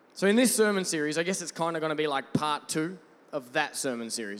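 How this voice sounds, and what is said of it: Australian accent. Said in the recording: “I'm not British, if you're wondering, by the way. I'm Australian.”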